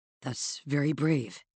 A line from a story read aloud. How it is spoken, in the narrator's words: said hoarsely